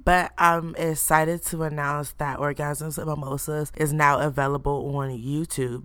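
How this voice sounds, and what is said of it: Rough, sore-throat sounding voice. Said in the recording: “as you can hear by my voice, I have a mini throat coat”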